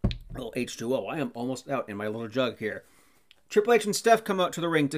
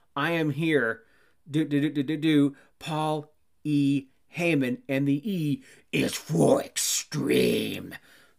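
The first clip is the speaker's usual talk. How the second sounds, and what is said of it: Bad Paul Heyman impersonation. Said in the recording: “do a Paul Heyman impersonation, a bad one”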